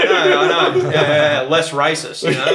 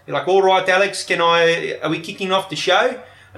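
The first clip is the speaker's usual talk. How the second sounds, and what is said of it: Terrible put-on South African accent. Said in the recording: “I'm doing a terrible South African accent. ... suddenly sounds quite camp the way you just said”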